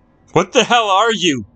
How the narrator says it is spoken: shouted Linda, but her voice was drowned out by the ceaseless laughter

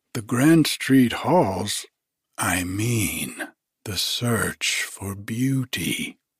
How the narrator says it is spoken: drawled Simonov

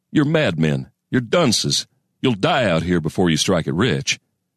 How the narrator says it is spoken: he'd have chuckled bitterly

